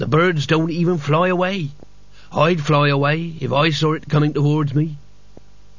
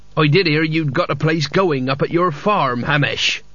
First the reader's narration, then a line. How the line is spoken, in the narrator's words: he said